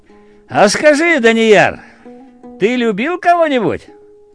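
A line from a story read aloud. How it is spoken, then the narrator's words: Laughing. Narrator (Russian): И засмеялась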